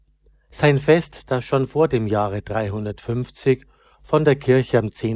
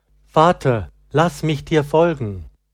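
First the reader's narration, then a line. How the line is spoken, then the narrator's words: Calling while hurrying after. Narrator (German): eilte Laurentius ihm nach und rief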